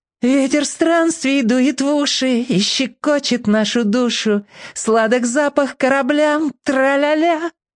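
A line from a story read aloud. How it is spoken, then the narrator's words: Singing in girlish voice. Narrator (Russian): Бамбала пропел девчоночьим голосом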